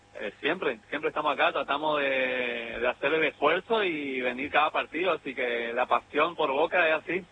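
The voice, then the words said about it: Argentine accent, not Rioplatense. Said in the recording (Spanish): “te noto alguna tonada, algo ajena a la rioplatense ... Vengo de Resistencia Chaco”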